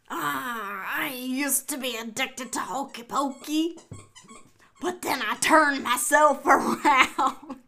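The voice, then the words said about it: Bad pirate accent. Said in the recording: “It's the accent, the pirate. I can't. That was such a bad pirate. ... You said, arrgh, arrgh, ... It was not very pirate-ish towards the end.”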